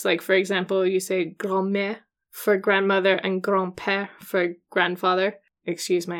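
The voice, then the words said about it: Playful French accent. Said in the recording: “your fun French accent”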